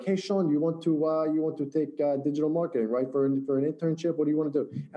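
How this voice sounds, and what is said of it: Imitated Russian accent, broken English. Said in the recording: “she's an old Russian teacher ... in her, I shouldn't say broken English, but in her accent”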